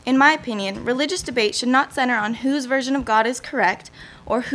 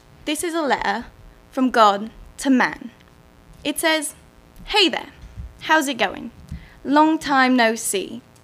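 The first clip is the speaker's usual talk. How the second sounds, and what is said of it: Put-on British accent. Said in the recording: “the lyrics don't sound quite right without that British accent, so I'll be using that today.”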